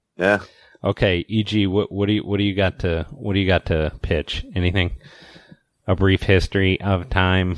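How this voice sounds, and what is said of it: Slightly hoarse voice. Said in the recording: “send me some throat lozenges says I'm a little hoarse”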